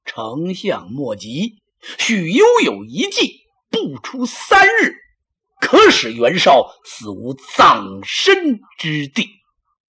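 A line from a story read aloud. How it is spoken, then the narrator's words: Slight smile. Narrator (Chinese): 许攸微微一笑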